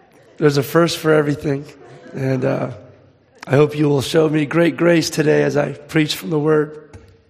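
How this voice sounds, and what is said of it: Raspy voice. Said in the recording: “Sorry about the raspy voice.”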